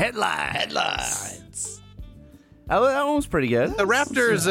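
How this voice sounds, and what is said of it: Usual voice. Nothing is said of it.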